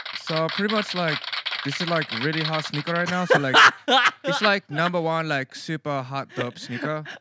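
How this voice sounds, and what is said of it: Put-on Asian teenager voice. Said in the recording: “my Asian teenager impression”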